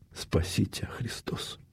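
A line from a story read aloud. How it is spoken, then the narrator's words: Mouthed whisper, mother. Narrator (Russian): Мать одними губами прошептала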